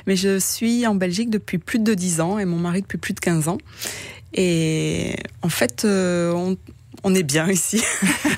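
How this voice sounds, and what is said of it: Light southern French accent. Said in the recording (French): “un léger accent qui n'est pas tout à fait belge ... Je suis toulousaine, effectivement, donc c'est dans le sud de la France ... dans votre accent, on entend du soleil”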